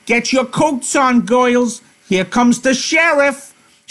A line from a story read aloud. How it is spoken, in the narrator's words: Susie she yells over her shoulder